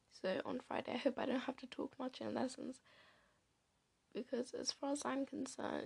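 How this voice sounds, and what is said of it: Sore-throated, tired, unwell voice. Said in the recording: “You can just tell by my voice. My throat hurts, my head hurts, I'm tired.”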